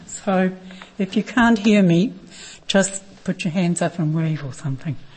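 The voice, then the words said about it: Strained, fading voice. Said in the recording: “I practiced too hard during the week. I'm losing my voice.”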